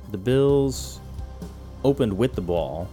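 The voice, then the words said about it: Mimicked thick New York accent. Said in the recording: “a very thick New York accent ... I begin to mimic it, which is why I said bull”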